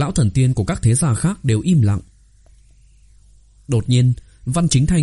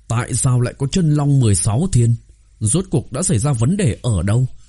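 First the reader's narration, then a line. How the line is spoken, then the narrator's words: Hoarse, gloomy old man. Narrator (Vietnamese): Lão thần tiên Đồng gia mặt mày âm trầm, giọng khàn khàn nói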